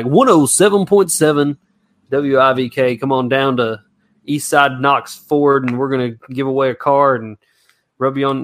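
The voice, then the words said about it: Radio announcer voice. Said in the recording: “cracking off the radio voice”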